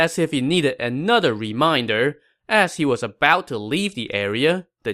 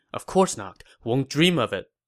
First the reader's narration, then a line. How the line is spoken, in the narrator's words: Zhao Yun reminded Meng Huo